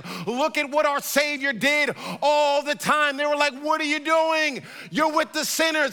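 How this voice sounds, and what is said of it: Intense, fired-up, angry-sounding preaching. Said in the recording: “if I sound mad ... I am passionate ... I am fired up about this”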